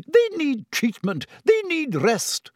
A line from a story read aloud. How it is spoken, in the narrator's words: sputtered Madame Pomfrey